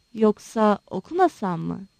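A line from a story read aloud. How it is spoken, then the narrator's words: Whispering. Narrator (Turkish): diye fısıldadı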